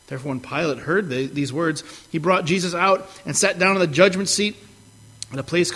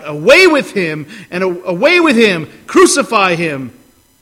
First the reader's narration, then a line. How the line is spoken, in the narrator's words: So they cried out